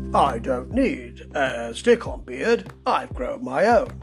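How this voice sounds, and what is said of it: Bad Roger Moore impression. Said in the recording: “a bad impression, but that's what I imagine that Roger Moore might have said”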